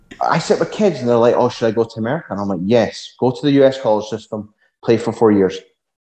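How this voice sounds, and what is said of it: Scottish accent. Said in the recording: “we're based in Scotland. You can probably tell from the accent”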